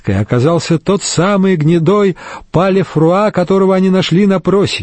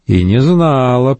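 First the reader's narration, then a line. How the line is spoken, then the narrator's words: Grumbling. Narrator (Russian): проворчала она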